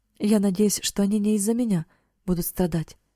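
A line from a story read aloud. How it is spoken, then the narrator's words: Plain. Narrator (Russian): сказал Эрик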